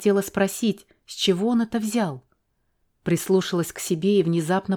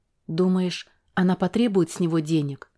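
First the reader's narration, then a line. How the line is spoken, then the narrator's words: Plain. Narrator (Russian): спросила я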